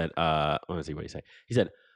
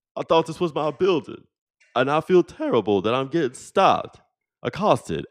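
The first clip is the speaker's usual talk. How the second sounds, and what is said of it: Imitates another person's voice. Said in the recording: “trying to do my Patrick Ewing voice ... I was gonna try to do my Patrick Ewing impression”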